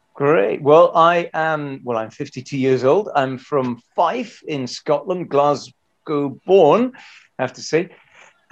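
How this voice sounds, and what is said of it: Scottish accent. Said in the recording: “I can hear an accent.”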